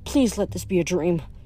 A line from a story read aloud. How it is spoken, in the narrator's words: murmured